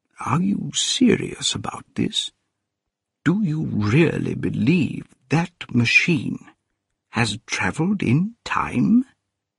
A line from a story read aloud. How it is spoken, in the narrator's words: said the medical man quietly